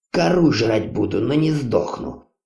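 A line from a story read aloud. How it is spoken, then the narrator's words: Grumbling. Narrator (Russian): бурчал он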